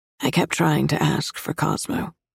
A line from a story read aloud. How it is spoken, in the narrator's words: she rasps